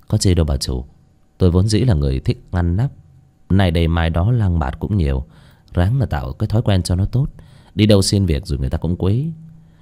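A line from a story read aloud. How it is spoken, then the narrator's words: Smiling. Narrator (Vietnamese): Bác Cổ chỉ mỉm cười nói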